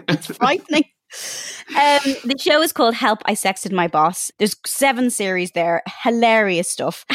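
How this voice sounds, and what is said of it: Irish accent. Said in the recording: “I didn't know I had an Irish accent. I didn't know I sounded like this.”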